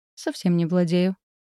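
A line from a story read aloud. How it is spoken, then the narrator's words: Calm. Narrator (Russian): спокойно сообщила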